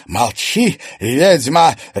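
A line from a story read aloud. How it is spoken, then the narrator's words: Barking, harsh. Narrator (Russian): рявкнула Клариса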